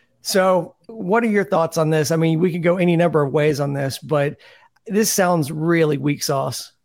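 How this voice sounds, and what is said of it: Usual voice. Nothing is said of it.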